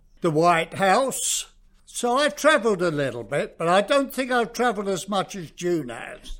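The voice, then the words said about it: South London English accent. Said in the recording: “where you picked up that accent of yours ... Oh, South London.”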